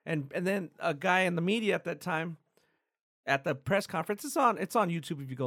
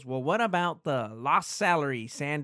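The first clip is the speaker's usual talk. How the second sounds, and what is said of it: Imitates a 1960s news reporter. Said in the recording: “that's a pretty good impression of a 1960s reporter”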